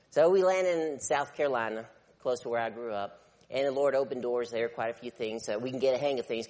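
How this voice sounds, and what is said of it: Southern American accent. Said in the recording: “I still have that southern accent”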